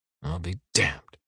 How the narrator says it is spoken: he mumbles

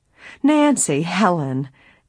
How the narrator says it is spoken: Emily's aunt exclaimed, stopping short

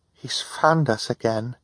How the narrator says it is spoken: Violet said, talking quietly so Hal could not hear them

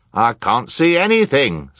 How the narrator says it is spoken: someone yelled

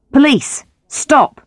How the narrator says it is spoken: shouted Grant

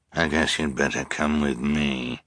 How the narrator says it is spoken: the Count said wearily

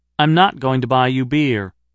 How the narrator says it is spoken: I said evenly

